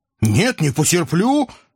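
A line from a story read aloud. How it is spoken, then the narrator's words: Unrestrained bark. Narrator (Russian): не сдержавшись, рявкнул я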